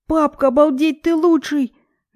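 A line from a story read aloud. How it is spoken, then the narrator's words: Delighted child's yell. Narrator (Russian): Довольно вопит наш сын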